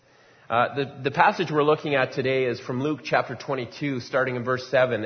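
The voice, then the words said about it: Strained voice, nearly losing it. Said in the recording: “I have a bit of a cold today... I think I have to be quiet because I'm going to lose my voice”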